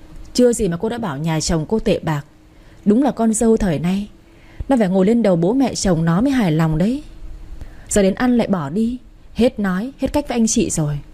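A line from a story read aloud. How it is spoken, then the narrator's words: Flustered sighing old woman. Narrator (Vietnamese): Bà Hoa tỏ sang bối rối rồi thở dài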